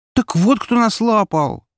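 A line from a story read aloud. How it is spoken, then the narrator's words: Indignant woman shouting. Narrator (Russian): возмущенно выкрикнула протестантка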